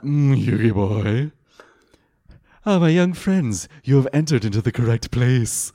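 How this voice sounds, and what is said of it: Hammy Pegasus impression. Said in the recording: “it's Pegasus, but just a little bit creepier ... It's not full ham in the accent ... I can only go full Pegasus ... Just went full Pegasus. Never go full Pegasus.”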